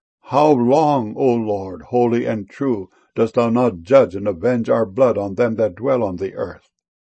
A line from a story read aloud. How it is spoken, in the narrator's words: they cried with a loud voice, saying